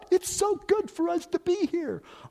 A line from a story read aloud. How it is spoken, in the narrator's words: Peter blurts out